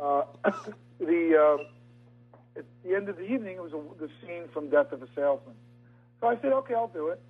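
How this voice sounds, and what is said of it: Tired voice with New York accent. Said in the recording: “I'm so tired, all of my New York accent is coming out. I can hear it.”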